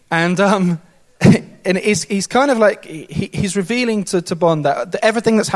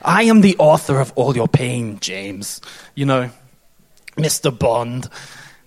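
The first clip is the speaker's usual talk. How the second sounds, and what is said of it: Christoph Waltz impression, German accent. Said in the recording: “Christopher Waltz, in this very, very German way ... In that kind of German accent.”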